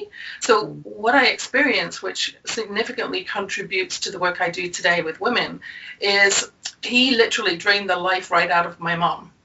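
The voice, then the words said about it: English accent. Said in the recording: “As you can probably tell from my accent, I grew up in England”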